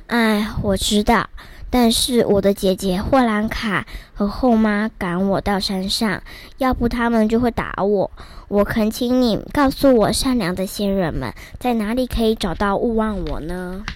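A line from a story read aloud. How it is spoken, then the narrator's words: Plain. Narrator (Chinese): 老爷爷对着一个年轻一点的小哥哥说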